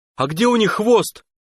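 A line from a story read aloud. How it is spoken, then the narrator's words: Shout, calmer, not hysterical. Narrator (Russian): снова крикнул Тимоха, который, на удивление, вроде не собирался больше истерить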